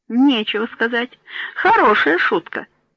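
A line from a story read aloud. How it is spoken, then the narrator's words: Laughing. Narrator (Russian): смеясь сказал Миньоли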